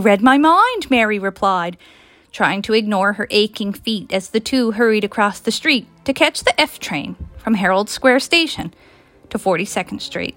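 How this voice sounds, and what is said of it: Newfoundland accent. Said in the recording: “I love your accent. You'd think I'd be used to the Newfoundland accent by now”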